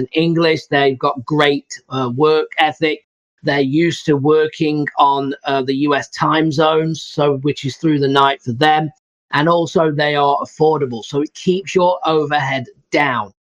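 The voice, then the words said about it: Speaks with a noticeable accent. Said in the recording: “I always have to spell that out because my accent, Upwork, no one can quite get that.”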